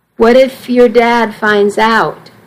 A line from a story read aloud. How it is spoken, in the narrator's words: Missy asked